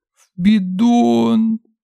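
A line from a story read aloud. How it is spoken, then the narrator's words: Sobbing little girl. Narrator (Russian): всхлипнула мелкая и разревелась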